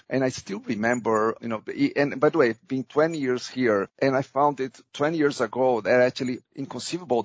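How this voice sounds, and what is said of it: Brazilian-accented English. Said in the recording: “I know I am an immigrant to this country. You can probably notice that on my accent. ... from the market I was coming, ... Brazil”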